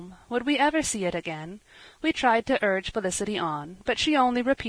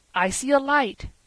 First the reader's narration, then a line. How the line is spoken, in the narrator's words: he cried